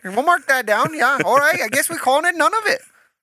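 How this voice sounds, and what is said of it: Pretty good put-on Canadian accent. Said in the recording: “you have a pretty good accent there ... the Canadian accent is very similar to the Minnesotan accent”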